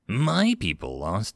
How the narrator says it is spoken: snarled

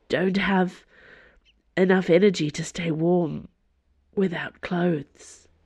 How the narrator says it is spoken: she said hoarsely

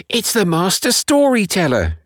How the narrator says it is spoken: shouted one

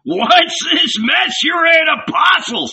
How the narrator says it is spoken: He shouted

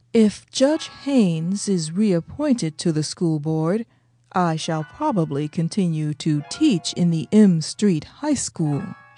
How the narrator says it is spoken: she said slowly

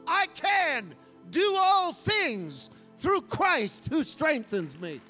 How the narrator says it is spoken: I yelled at her

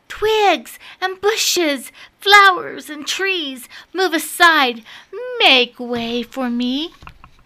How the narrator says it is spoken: he cried out

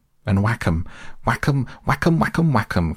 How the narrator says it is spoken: cried the toad in ecstasy

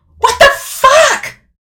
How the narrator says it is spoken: scream

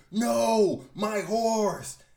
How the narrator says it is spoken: Super Lightning Lord flies from the Adventurers Club screaming

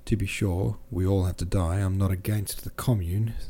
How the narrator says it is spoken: said Dron

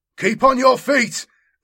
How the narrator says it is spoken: Sarian shouts

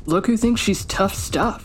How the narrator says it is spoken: James sneered

